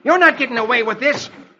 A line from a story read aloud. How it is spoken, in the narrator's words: Dick shouts